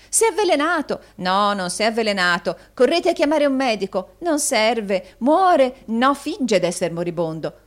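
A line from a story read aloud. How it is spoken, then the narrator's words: Fickle cries. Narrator (Italian): con varie altre grida di meravigliosa volubilità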